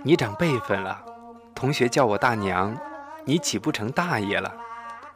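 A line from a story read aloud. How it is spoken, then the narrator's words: Sad laugh. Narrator (Chinese): 我凄然地笑了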